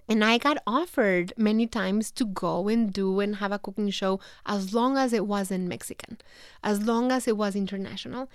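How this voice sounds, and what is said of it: Mexican-accented English. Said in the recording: “having a Mexican... people were worried about the accent... are people going to understand her accent... take classes to erase my accent”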